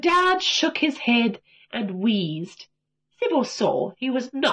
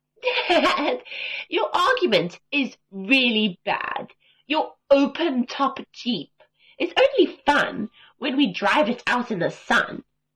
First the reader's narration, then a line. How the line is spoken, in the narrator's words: Sibo laughed out loud and said